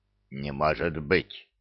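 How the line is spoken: Muttering. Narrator (Russian): пробормотал некромант

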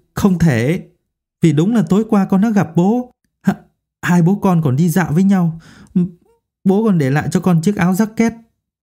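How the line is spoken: Trembling, shaken. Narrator (Vietnamese): Hình tay run run

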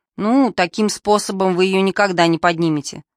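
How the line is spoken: Disapproving grumble. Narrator (Russian): с неодобрением проворчал таксист

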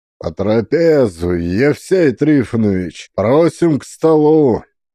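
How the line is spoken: Dignified deep bass. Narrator (Russian): Солидно пробасил Сафрон

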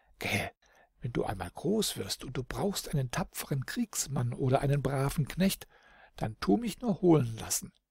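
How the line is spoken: Laughing whisper to child. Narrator (German): Lachend flüsterte dem Kindlein ins Ohr

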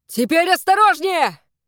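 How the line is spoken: Shout. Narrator (Russian): крикнул отец Марты

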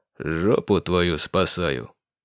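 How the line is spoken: Snide, smirking. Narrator (Russian): ехидно улыбнулся он

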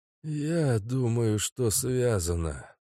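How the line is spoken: Old man's rasp. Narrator (Russian): прохрипел старик

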